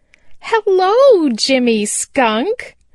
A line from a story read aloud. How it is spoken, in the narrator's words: cried Chatterer the Red Squirrel